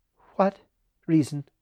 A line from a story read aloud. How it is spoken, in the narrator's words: asked Evelyn in a frightened voice